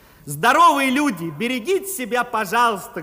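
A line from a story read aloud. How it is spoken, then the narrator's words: Loud. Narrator (Russian): громко сказал я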